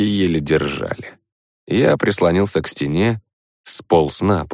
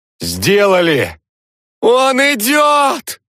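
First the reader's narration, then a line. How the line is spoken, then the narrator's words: Shrieking from the street. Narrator (Russian): завизжала с улицы Свана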